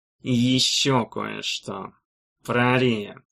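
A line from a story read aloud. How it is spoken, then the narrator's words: Careless, through teeth. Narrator (Russian): сказал Легул совсем уж небрежно и сквозь зубы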